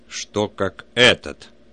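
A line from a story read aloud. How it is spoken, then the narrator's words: Menacing father. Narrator (Russian): спросил отец, грозно надвигаясь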